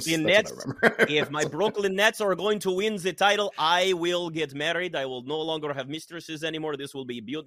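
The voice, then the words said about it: Accented impression of Prokhorov. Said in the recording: “I don't think you get into Wimbledon with that accent ... That was basically Medvedev”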